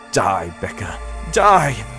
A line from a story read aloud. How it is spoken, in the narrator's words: I cried, struggling with the handle of the knife